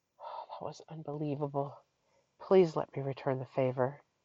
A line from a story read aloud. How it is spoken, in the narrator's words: he breathed